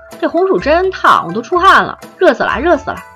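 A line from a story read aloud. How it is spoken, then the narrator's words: Deliberately loud. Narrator (Chinese): 维京假装没听到，刻意的大声说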